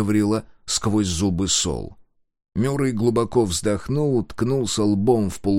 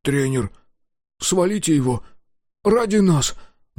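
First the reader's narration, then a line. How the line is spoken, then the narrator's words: Trembling voice. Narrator (Russian): дрожащим голосом произнес Дозер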